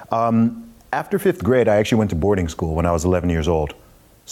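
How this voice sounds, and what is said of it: Mixed American-British accent. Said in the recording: “my accent and why I don't sound like a typical Englishman ... I hear a little bit of it. ... I don't sound like 100% American, ... I don't sound British either”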